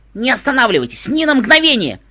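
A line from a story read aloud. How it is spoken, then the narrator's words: Shouted. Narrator (Russian): крикнул он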